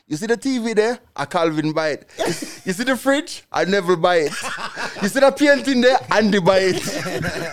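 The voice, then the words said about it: Put-on Jamaican accent. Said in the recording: “I give it to her in a Jamaican accent.”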